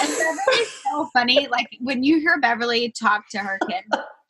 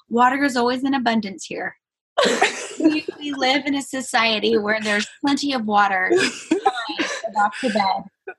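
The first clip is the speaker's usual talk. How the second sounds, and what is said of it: Imitation of a mother's voice. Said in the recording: “they do a Beverly impression.”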